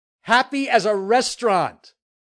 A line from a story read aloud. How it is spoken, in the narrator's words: shouted at the stars